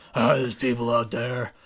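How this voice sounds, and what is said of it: Impression sounding like Christian Bale's Batman. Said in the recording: “let me do his voice ... it sounds more like Christian Bale ... Batman”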